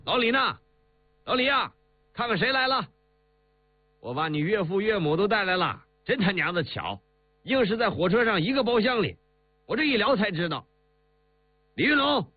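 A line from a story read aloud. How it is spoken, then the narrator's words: Loud shouting. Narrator (Chinese): 他 大叫着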